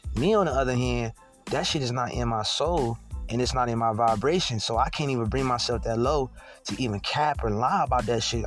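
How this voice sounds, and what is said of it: Slurred speech. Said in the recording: “I know my words getting slurred... my words are slurring”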